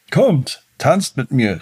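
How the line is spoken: Called out. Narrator (German): rief er

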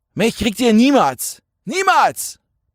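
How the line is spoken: Roar. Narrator (German): brüllte Jan

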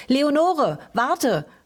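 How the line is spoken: Calling out. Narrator (German): rief

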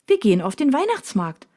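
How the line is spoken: Cheerful announcement. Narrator (German): verkündet sie fröhlich

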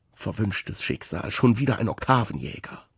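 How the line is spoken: Muttering nearby. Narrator (German): Neben mir murmelt es

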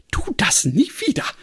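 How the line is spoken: Agitated, struggling for composure. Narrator (German): rief Granny aufgeregt und schien heftig mit ihrer sonst so unbestechlichen Kontenance zu ringen

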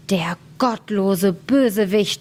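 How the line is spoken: Shouting. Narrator (German): schrie der Schneider

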